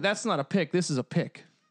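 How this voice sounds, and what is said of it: Put-on Australian accent. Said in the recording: “Gotta work on my Australian accent.”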